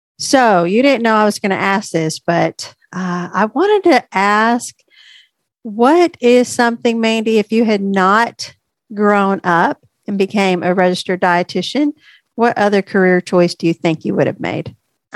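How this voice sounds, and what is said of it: Slightly stuffy, congested voice. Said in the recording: “I'm a little stuffy today. So if my voice sounds a little off.”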